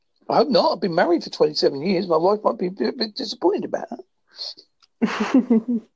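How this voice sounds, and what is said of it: Strong Essex-Devon English accent, fast. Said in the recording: “Got an Essex cum Devon accent ... My accent is a bit strong ... I do talk a bit fast”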